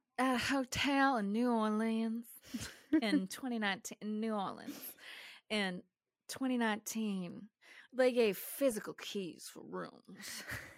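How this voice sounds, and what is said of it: Southern Belle accent. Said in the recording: “doing this one in an accent because I saw New Orleans ... I'm just going to do, like, Southern Belle.”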